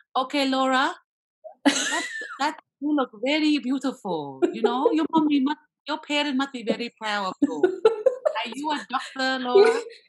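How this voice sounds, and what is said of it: Put-on Asian accent. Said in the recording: “the Asian accent, which I'm very good at”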